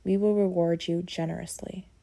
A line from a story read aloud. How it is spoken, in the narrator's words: your sister-in-law says